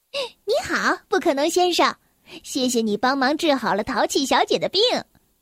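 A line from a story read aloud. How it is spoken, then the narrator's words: Smiling. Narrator (Chinese): 小小先生，他微笑着说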